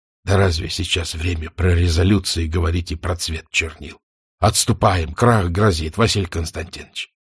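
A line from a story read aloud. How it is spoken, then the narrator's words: Quiet speech. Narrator (Russian): тихо говорит один из командиров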